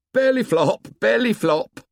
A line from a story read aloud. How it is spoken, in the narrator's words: He shouted